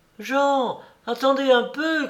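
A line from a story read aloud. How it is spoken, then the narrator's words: Joyful little girl calling. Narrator (French): cria en ce moment une joyeuse voix de petite fille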